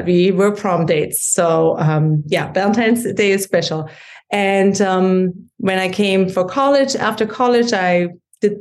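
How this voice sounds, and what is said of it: German accent. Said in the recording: “you can hear from my accent that I grew up in Germany”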